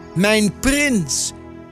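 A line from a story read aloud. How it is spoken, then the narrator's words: Calling out. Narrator (Dutch): riep Adelheid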